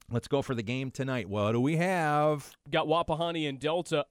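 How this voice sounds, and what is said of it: Deep, congested radio-like voice from cold. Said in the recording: “when I'm sick and I have a cold, I, I finally have the radio voice I always wanted”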